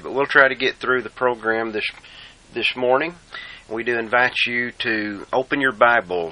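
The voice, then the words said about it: Congested, strained voice. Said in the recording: “excuse my voice ... I'm having some trouble with the sinus issues, bronchial issues, and may sound a little strange to you today”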